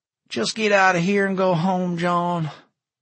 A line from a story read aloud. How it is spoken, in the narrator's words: Vern sighed